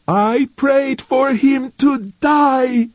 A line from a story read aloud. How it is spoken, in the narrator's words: screamed King